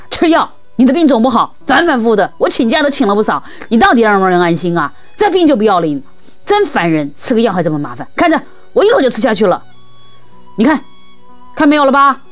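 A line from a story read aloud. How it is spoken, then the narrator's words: Angry. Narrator (Chinese): 妈妈怒气冲冲地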